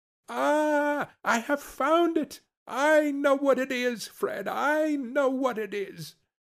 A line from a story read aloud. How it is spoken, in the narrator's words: the plump sister, falling into a similar state, cried out